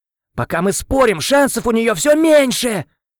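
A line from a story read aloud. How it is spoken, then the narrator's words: Yelling at mother. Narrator (Russian): Заорал на мать Эл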